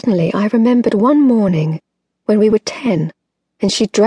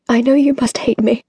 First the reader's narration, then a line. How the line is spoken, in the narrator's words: her voice broke